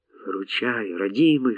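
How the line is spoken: Whispered to an engine. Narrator (Russian): шептал Арон двигателю

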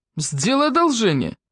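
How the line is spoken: Barked. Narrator (Russian): рявкнул Фрэнк

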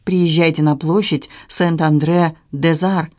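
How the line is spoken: Plain. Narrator (Russian): сказала я

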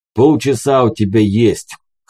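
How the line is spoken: Gloomy. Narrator (Russian): хмуро произнес будильник

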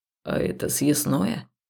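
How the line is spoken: Quiet question. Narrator (Russian): тихо спросил Хаул

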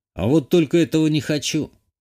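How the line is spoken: Scoffing grunt. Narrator (Russian): хмыкнул я

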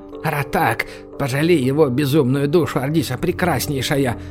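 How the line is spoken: Whisper. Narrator (Russian): прошептал трактирщик

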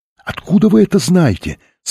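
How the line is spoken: Asking. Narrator (Russian): спросила Софи

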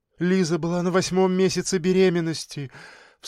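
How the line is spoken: Sobbing. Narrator (Russian): всхлипнув, сказала она

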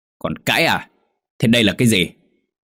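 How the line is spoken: Old man's loud shout. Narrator (Vietnamese): Ông Lý quát lớn

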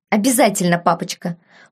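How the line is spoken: Indignant snort. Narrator (Russian): фыркнул барон, возмущенно

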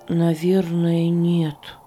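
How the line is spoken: Sad. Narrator (Russian): печально ответил Иосиф

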